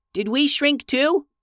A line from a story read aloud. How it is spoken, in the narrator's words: squeaked Shai